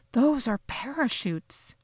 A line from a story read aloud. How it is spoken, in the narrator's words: I whispered